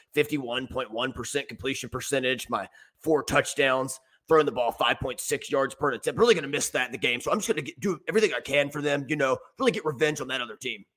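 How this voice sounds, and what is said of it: Cade McNamara impression. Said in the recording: “good Cade McNamara impression ... I can hear the sniveling weasel now ... just a crude impression ... it was dead on”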